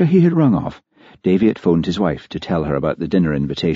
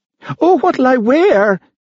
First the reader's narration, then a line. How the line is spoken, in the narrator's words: she shrieked